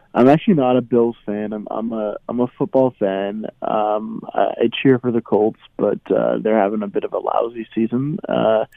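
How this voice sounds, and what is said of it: Hoarse, strained voice. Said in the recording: “My voice is a little gone and a little hoarse”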